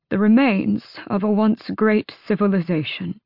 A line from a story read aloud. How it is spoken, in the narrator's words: Darrow said thickly